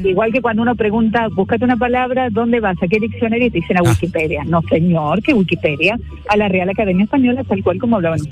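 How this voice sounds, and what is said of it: Caller's own noticeable accent. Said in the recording (Spanish): “Me encanta escuchar tu acento.”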